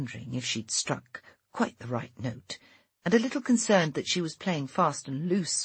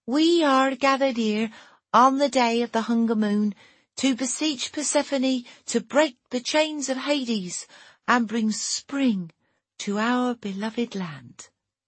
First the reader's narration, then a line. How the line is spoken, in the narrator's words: said in a chanting voice, which had taken some weeks to perfect